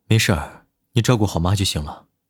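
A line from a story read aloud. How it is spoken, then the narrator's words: Flat indifferent tone. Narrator (Chinese): 南离川淡淡的说道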